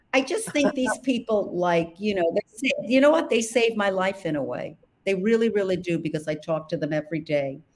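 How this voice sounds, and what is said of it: Brooklyn accent. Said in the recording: “my accent, because it's from Brooklyn”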